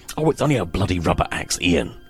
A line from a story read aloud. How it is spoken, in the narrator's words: Reeves snapped